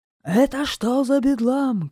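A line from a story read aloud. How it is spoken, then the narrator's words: Angry shout. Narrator (Russian): кричал он сердито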